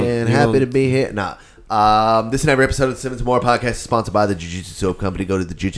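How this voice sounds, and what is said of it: Usual voice. Nothing is said of it.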